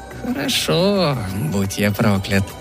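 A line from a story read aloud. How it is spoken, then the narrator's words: Muttered with a giggle. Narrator (Russian): пробормотал он, хихикнув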